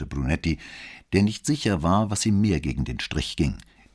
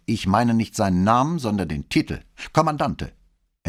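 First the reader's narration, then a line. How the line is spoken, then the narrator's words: Gruff, curt. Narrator (German): erkundigte sich Brunetti barsch und fügte nicht weniger schroff hinzu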